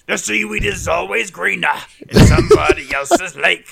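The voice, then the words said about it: Imitates another person's voice. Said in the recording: “It's a good impression.”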